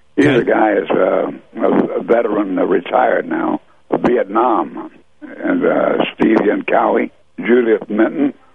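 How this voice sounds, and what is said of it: Hoarse, fading voice. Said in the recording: “I'm losing my voice quickly here. ... this sore throat”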